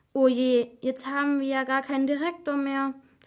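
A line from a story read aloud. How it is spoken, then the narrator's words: Sighed. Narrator (German): seufzte Helena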